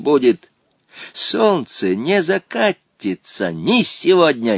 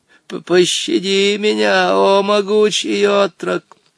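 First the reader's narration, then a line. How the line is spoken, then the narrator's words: Pitiful exclamation. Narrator (Russian): воскликнул он жалостливым голосом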